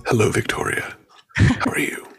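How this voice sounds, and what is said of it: Late-night radio announcer voice. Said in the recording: “the late night radio voice”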